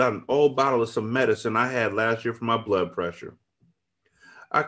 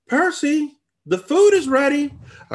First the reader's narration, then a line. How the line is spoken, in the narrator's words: I called out with a big smile on my face